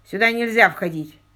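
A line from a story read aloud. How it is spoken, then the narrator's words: Stern servant. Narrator (Russian): строго произнес слуга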